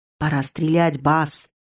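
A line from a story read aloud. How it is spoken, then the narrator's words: Whisper. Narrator (Russian): прошептал Ханс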